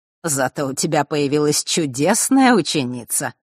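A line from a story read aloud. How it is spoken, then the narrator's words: Snorting chuckle. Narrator (Russian): хмыкнул Родион Хардиус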